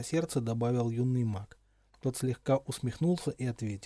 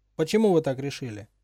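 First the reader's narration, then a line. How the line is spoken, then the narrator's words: Sharp question. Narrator (Russian): резко спросил Гарри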